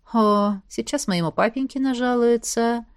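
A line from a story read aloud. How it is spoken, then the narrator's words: Sad sighing brother. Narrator (Russian): грустно выдохнул средний братец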